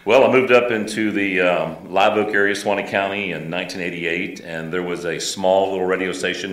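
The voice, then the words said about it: Great radio announcer voice. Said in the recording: “has a great radio voice”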